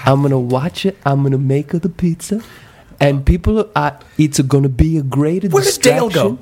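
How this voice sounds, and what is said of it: Put-on Italian pizza man accent. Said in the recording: “He's already doing the accent. ... I'm Italian pizza guy. ... using that voice”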